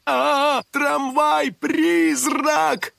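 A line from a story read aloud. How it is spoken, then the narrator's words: Shouting. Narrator (Russian): кричал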